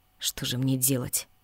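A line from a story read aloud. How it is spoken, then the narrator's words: Muttering under breath. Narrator (Russian): бормотал себе под нос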